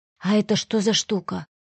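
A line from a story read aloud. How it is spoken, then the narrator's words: Near-whispered question. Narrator (Russian): спросил почти шепотом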